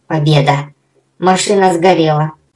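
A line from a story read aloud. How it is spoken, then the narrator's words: Relieved sigh. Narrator (Russian): Облегченно вздохнул Субастик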